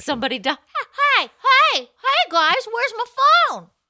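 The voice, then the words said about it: Imitates another person's voice. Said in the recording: “it's a good impression.”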